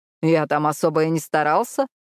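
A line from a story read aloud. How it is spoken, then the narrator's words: Smug snort. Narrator (Russian): хмыкнул Мэтт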